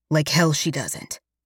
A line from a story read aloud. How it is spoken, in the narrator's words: Alex growls